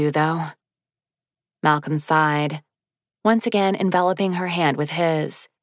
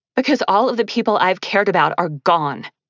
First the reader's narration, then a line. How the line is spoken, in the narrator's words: she snapped